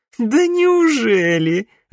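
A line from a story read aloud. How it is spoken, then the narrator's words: Laughing. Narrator (Russian): рассмеялась Саяна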